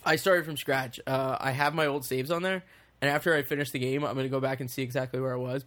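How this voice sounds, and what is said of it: Rough, worn-out voice. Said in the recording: “my voice is still a little shot ... recovering from that cough ... smoked a whole pack of cigarettes, like four cigars”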